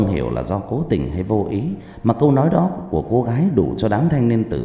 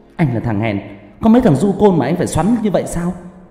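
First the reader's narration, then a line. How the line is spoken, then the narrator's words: Loud woman shouting. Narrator (Vietnamese): cô gái lại to mồm quát lớn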